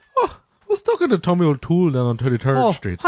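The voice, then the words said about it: Attempted put-on Irish accent. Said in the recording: “I was going to try to do an Irish accent ... No, I can't do it.”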